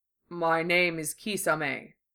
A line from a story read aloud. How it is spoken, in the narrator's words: he said, the deep rumble of his voice changing pitches at odd intervals